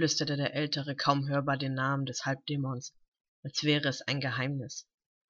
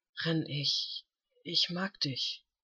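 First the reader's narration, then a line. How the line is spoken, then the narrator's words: Intimate murmur. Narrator (German): raunte er gegen die Lippen des Jüngeren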